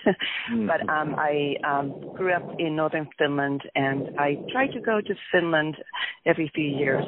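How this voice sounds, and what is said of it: Finnish accent. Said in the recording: “as you can tell, I have accent.”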